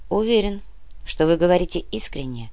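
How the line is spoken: Calm reply. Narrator (Russian): спокойно ответил Кортес

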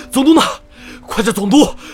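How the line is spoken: Shouting. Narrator (Chinese): 寒静 大喊

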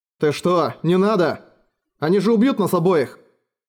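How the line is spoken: Angry growl. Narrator (Russian): Роран гневно сверкнув глазами, прорычал

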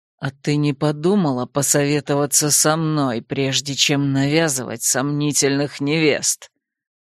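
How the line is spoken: Hateful hiss. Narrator (Russian): прошипел, с ненавистью

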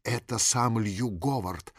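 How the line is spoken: Whisper. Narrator (Russian): шепнул кто-то

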